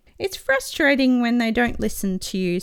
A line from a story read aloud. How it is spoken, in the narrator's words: sighs Bluey